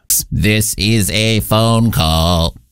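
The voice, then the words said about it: Robot-like voice. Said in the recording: “that was me, not an actual robot. I was doing a voice.”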